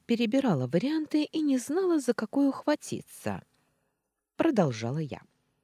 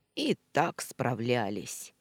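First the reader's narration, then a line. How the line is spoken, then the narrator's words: Grumbled, cat. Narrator (Russian): буркнул кот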